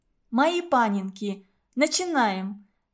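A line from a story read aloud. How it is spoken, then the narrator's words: Cheerful announcement. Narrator (Russian): весело объявила она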